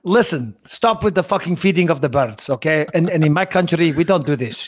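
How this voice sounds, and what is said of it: Put-on foreign accent. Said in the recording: “Can't do accents these days.”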